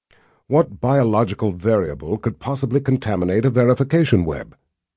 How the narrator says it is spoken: Nathan asked

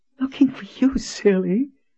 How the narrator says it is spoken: she said in a breathless voice

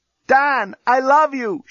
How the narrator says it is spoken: shouted Lucy from her cell

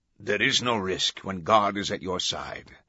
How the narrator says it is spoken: the Camerlengo said

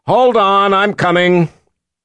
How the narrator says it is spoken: Violet shouted across the room

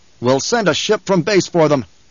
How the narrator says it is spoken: the Duke snapped

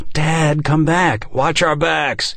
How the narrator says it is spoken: he yelled to Nick

